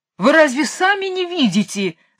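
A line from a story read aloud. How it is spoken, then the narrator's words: King yelling. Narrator (Russian): завопил король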